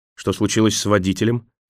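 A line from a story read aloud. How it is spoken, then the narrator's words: Sharp question. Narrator (Russian): резко спросил Николас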